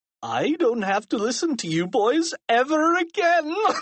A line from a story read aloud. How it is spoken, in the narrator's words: laughed Mr